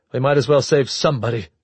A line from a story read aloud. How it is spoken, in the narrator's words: she said harshly